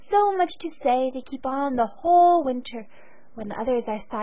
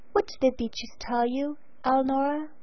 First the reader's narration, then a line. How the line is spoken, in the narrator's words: He asked gently